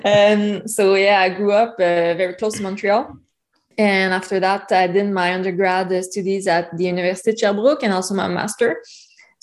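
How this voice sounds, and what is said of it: Strong accent. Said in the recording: “do not worry with your accent. Mine is worse.”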